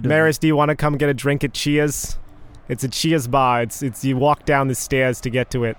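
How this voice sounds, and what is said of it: Weak put-on Boston accent. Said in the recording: “Boston accent ... I can only do JFK. And even then, it's not very good ... stuck in a Boston loop”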